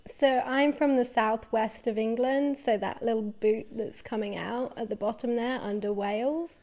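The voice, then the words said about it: British English accent. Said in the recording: “we're sensing a little bit of an accent... We're sensing a British accent.”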